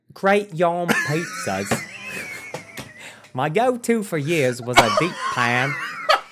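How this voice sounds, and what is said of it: Poor attempted British accent. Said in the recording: “reading this with a British accent ... My accents ... terrible ... so terrible ... You sounded like you're fucking from Louisiana”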